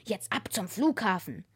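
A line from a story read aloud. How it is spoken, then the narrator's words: Muttering to oneself. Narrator (German): murmelte die Gestalt zu sich selbst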